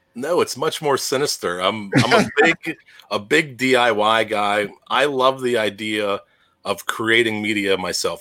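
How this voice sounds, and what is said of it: Game show host voice. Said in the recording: “that voice of yours ... You have this perfect hosting voice, like the game show voice”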